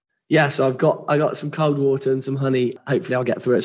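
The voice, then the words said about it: Hoarse, gravelly voice. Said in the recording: “you've got a little bit of a poorly voice, haven't you? ... I actually lost my voice earlier in the week ... I get so gravelly people can't hear. I'm like Phoebe from Friends when she has that gravelly voice.”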